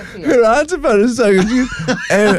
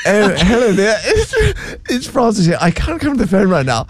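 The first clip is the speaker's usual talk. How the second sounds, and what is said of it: Posh, proper put-on phone voice. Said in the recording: “where's that voice come from? That's not how you talk ... put on a proper voice ... she's like Mrs. Bouquet”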